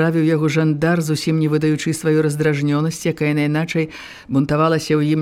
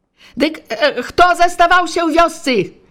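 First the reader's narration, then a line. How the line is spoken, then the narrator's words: Flustered shout, forced bravado. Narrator (Belarusian): Ужо выразна губляючыся, крыкнуў зноў брава Жыватоўскі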